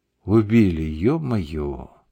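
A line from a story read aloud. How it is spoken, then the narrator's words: Muttered. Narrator (Russian): пробормотал Сережка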